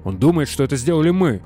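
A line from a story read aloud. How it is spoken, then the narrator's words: Exclaimed. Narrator (Russian): воскликнул Ганс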